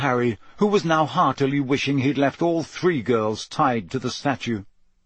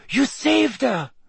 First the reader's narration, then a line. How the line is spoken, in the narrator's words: she said breathlessly